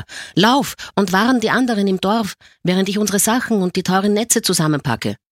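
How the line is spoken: Old man shouting. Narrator (German): schrie der Alte

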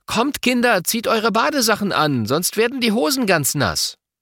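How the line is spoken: Calling out. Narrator (German): Mama ruft

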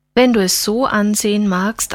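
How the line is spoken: Plain. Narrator (German): antwortete Christine

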